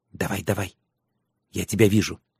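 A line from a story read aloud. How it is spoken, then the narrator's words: Whispered in ear. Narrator (Russian): шепнула на ухо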